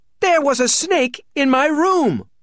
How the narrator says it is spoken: wailed Merriweather

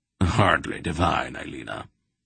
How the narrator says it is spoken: the old man said dryly

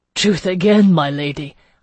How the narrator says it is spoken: I heard him say above me, laughter and astonishment in his voice

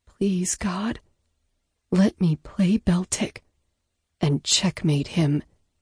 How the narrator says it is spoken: she said, under her breath

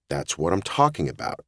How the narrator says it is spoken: John said in his concerned voice

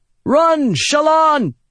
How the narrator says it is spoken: Adolin shouted

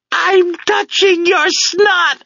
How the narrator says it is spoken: I scream

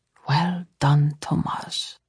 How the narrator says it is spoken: Saul said softly

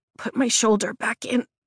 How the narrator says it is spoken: my voice croaks

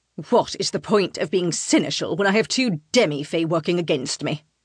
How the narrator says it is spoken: Rythe snarls

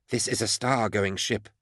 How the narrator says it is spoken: he said softly

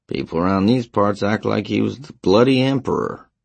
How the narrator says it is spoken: the custodian grumbled

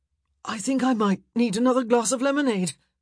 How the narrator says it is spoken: he gasped

